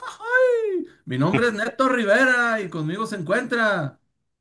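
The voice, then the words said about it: Put-on northern Mexican accent. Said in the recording (Spanish): “cada vez estoy perdiendo más mi acento norteño y para eso lo finjo”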